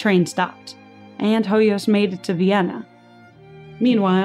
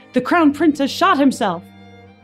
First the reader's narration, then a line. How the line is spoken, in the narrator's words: Hoyas shouted